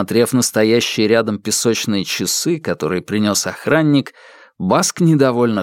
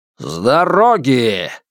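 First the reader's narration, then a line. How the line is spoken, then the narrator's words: Barked. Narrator (Russian): рявкнул он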